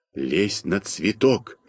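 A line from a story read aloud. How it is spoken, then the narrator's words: Quiet whisper. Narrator (Russian): тихо шепнул я Малинину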